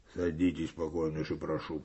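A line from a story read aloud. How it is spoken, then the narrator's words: Cold. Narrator (Russian): проговорил Коваленко холодно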